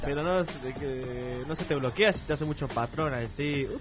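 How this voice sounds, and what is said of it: Put-on Córdoba Argentine accent. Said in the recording (Spanish): “¿Por qué hablo así? ... ¿Por qué me salió el acento cordobés?”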